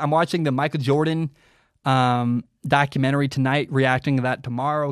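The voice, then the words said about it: Hoarse, worn-out voice. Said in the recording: “My voice is shot... my voice is done”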